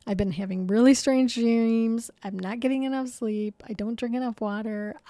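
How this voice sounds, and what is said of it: Strained, fading voice. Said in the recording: “you could tell my voice is going”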